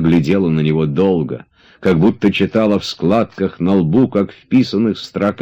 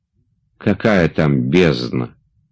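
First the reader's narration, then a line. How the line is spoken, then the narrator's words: Sighing. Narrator (Russian): вздохнул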